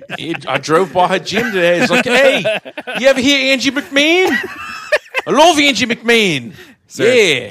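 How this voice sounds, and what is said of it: Fake Australian accent. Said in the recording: “That's clearly a fake Australian accent.”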